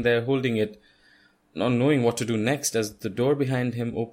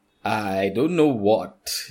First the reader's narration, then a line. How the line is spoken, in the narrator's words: you stammer, confused and scared